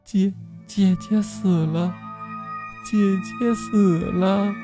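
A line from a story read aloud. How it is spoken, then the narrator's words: Crying child. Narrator (Chinese): 孩子一边哭一边说着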